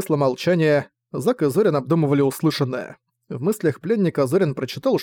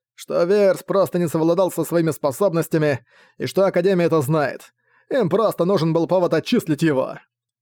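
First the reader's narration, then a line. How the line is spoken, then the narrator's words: Dismissive snort. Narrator (Russian): пренебрежительно хмыкнул Буранова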